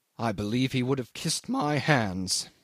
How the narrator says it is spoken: said Jim savagely

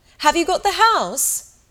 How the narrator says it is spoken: they shouted, long before she could possibly hear

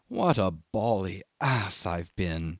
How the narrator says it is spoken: he said, very slow, in an awed tone

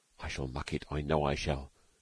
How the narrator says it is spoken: whispered Stalky uneasily

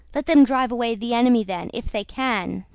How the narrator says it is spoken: said the Tsar

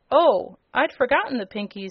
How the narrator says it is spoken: exclaimed the girl

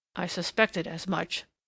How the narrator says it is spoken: said Germain in an undertone

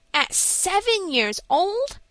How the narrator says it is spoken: exclaimed Frank in amazement

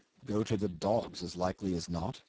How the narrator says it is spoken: he answered in a gruff mutter

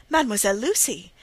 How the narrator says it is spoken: cried Rosine, bursting in

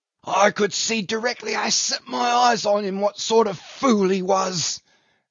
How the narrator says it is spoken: gasped the dying Brown

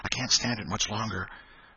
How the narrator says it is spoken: whispered Tom in short catches between breaths

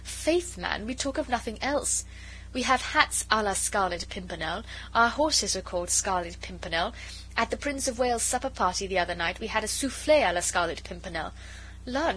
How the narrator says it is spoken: she added gaily

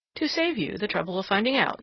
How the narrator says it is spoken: replied the other coolly

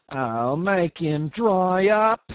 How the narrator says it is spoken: whined the accident case irritably

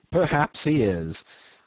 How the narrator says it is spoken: I admitted with a slight laugh, whose unexpectedly loud reverberation made me lower my voice directly

